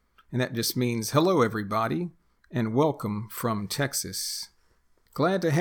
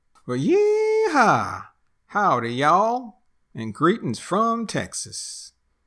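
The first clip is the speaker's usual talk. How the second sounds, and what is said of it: Put-on Texas accent. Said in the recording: “that's the Texas accent”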